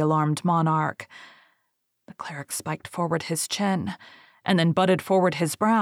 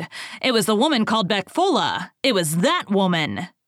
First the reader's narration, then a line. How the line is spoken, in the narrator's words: he roared